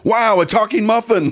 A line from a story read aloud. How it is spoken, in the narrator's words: The other one shouted